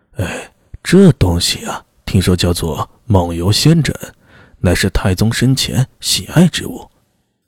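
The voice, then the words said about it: Lowered, mock-mysterious voice. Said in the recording (Chinese): “用压低、故作神秘的声音说道”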